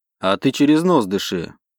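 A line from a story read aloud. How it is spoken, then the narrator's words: Calm reply. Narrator (Russian): спокойно ответил Грей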